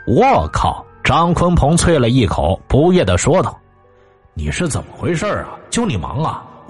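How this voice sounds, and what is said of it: Usual voice. Nothing is said of it.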